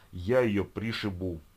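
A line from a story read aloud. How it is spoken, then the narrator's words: Growling. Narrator (Russian): продолжал рычать Гена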